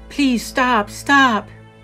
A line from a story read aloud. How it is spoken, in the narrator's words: I heard a loud, powerful moan